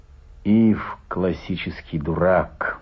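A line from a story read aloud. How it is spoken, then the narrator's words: Muttered. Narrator (Russian): пробормотал тот человек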